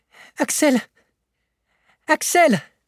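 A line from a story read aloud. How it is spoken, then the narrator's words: Exclaimed. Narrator (French): s'écria-t-il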